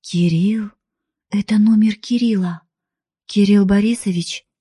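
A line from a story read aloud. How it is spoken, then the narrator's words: Hoarse voice. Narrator (Russian): сипло произношу я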